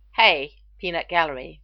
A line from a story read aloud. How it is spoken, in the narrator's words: McKay snapped